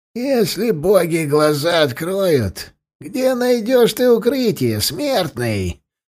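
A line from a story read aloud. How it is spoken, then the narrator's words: Creaky voice. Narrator (Russian): проскрипел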